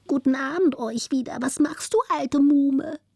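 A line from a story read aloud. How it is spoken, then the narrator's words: Thin, piping rat voice. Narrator (German): pfiff die zweite Ratte mit feiner Stimme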